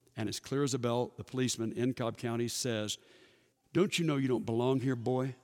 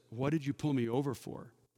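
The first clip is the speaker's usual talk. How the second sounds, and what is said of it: Very respectful tone. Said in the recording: “in a very respectful voice”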